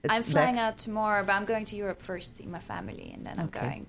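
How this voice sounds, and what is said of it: Mixed Swedish accent. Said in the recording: “Obviously, you're an accent. We love it. ... I'm Swedish, but I've lived in Los Angeles, London, Cape Town, so it's a bit mixed.”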